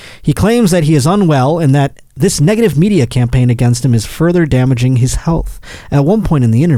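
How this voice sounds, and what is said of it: Usual voice. Nothing is said of it.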